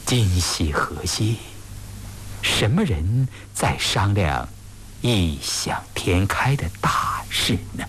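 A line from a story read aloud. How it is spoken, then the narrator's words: Pensive muttering. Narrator (Chinese): 乌斯道却陷入了深深的思索，他喃喃地说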